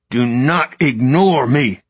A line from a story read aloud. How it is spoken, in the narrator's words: his father growled